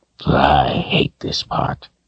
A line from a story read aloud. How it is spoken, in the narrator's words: he muttered to himself